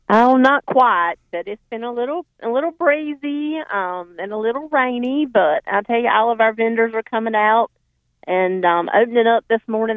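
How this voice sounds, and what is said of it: Southern accent, Johnston County. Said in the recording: “who who has the most beautiful accent to me, uh, and she's from Johnston County. They they have a little little different twist ... I love Southern accents.”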